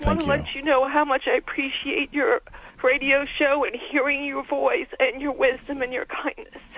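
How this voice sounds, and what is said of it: Emotional, choked-up voice. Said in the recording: “I'm sorry I'm getting emotional”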